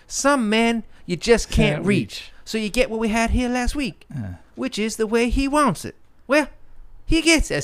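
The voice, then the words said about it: Imitates a film actor's voice. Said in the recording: “My Struthers Martin impersonation.”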